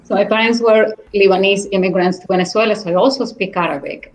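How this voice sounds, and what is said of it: English with a Spanish accent. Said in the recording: “Everybody would tell me my accent, right? Everybody liked the accent, a Spanish accent, an exotic accent ... I do have a Spanish accent”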